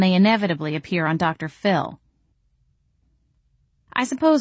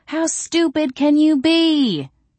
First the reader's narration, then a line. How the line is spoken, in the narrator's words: people yell